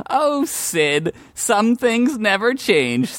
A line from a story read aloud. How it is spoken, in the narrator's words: said